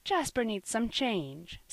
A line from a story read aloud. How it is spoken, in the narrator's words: said Sister Marion kindly